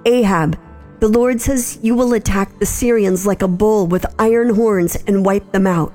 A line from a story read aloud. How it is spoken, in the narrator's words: shouted